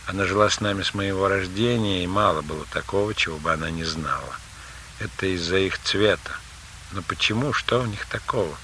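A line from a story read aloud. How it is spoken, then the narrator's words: Sighing. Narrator (Russian): Анеля вздохнула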